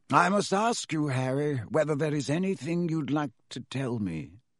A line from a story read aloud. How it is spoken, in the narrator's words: he said gently